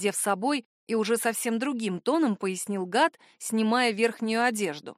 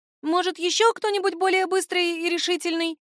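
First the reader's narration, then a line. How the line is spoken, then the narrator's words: Frightened squeak. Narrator (Russian): Испуганно пискнула я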